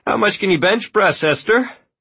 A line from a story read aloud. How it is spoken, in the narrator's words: She laughed